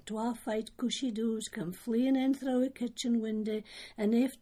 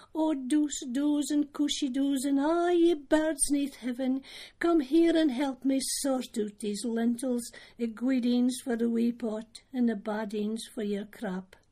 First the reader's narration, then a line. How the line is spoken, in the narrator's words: A quiney cried out